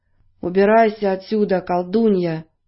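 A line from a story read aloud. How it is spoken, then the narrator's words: Hollow muffled voice. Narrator (Russian): глухим голосом произнес железный дровосек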